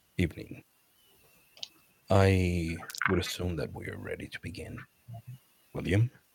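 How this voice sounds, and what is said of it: Very deep voice. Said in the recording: “the very deep voice”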